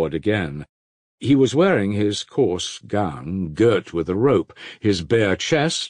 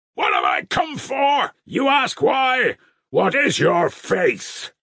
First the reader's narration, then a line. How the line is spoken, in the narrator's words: shouted Father Fierapont crazily